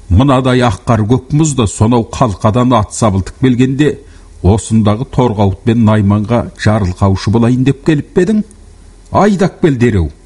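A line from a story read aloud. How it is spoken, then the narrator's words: Roaring. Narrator (Kazakh): деді ақырып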